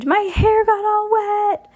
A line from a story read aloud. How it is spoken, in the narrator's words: Her shriek echoed off the walls